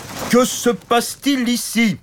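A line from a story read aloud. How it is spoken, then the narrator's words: Shouted by big knight. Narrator (French): cria le grand chevalier costaud et stupide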